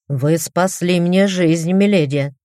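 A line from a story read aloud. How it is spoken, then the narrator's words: Stern reply. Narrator (Russian): строгим тоном ответил док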